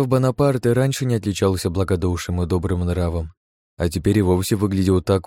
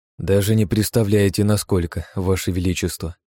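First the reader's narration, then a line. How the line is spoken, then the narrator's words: Sighing. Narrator (Russian): вздохнул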